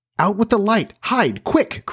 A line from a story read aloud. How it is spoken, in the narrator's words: cried John